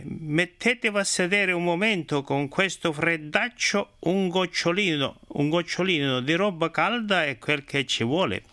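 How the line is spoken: Master's exclamation. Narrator (Italian): esclamò il padrone

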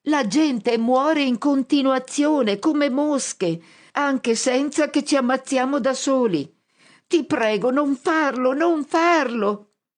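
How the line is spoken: Shouting at top of lungs. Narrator (Italian): grido a squarciagola

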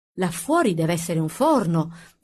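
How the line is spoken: Plain. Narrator (Italian): disse Booker

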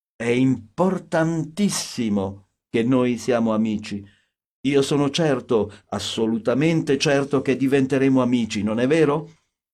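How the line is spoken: Ecstatic outburst. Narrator (Italian): proruppe lui in tono estatico

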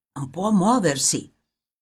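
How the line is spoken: Grave whisper in ear. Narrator (Italian): qualcuno con voce grave gli sussurrava negli orecchi

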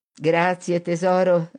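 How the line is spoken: Laughing mother. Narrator (Italian): rise la madre

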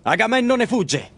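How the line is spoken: Shouted. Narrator (Italian): grida allora Ettore

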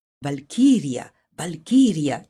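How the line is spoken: Low chattering. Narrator (Italian): citavano ad ogni passo, chiacchierando a bassa voce

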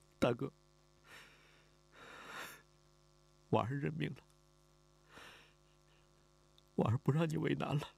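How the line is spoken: Crying. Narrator (Chinese): 李婉儿哭了，他哭着说

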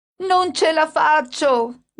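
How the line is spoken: Mother shouting. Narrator (Italian): gridava mia madre

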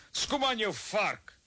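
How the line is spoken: Shouted from the crowd. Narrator (Afrikaans): iemand uit die skare skree

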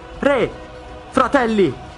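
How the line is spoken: Shouting. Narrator (Italian): grida

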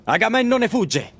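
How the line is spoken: Shouting. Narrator (Italian): grida allora Ettore

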